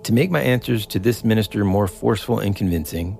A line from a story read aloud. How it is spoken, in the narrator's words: said